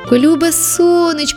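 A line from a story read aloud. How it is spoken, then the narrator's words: Shouting sunflower. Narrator (Ukrainian): закричав сонях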